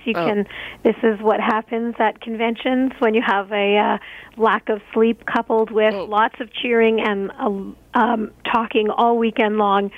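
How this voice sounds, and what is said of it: Hoarse voice. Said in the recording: “my hoarse voice”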